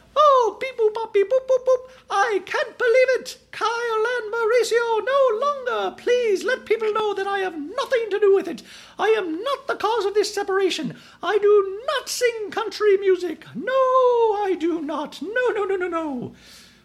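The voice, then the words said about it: Imitates another person's voice, C-3PO-like. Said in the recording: “that's my imitation of Dorit that sounds nothing like Dorit, but she always reminds me of C-3PO from Star Wars ... that's my Dorit imitation”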